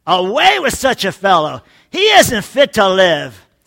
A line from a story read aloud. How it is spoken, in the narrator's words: they yelled